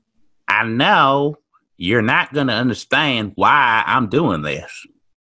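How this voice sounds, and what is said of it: Southern US accent. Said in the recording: “Why does she have a southern accent?”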